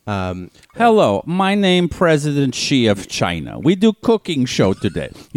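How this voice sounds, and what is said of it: Put-on Russian accent. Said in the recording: “He's got a Russian accent because I cannot do a Chinese accent.”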